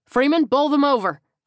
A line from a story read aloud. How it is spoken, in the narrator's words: Frank yelled